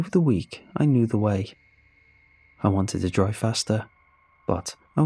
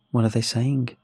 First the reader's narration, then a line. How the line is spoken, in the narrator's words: His voice was still as neutral as ever